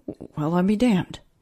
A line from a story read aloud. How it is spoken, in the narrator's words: Henry muttered, regretting his lack of faith in his colleague